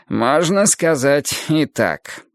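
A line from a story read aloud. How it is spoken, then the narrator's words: Wry snort. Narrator (Russian): хмыкнул Адонис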